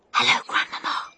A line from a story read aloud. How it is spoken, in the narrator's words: I whispered